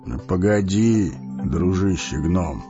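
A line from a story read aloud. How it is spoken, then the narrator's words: Calm old man. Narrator (Russian): спокойно проговорил старец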